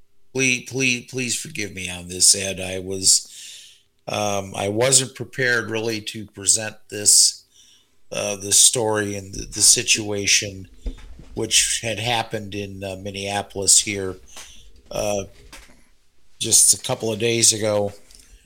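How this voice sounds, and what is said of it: Choked-up, emotional voice. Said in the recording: “I'm a little choked up.”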